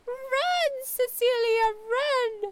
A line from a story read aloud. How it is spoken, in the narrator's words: Jamie shrieked